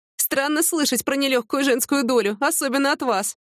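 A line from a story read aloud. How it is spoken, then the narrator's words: Giggling. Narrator (Russian): хихикнула Яна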